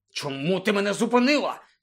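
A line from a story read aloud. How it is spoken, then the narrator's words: Angry question. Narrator (Ukrainian): сердито запитав Рон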